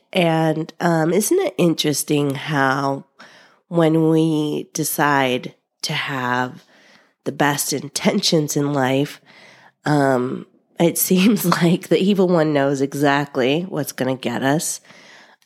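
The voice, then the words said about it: Sick, rough-sounding voice. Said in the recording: “I don't know if you can tell by my sexy voice here, but yeah, your girl is sick.”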